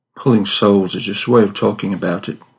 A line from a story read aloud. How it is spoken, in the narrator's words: said Woodley